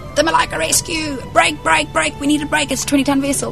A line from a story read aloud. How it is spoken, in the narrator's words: they screamed